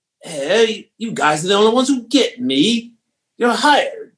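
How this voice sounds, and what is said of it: Poor imitation of another person's voice. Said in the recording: “terrible Paul Hogan impression.”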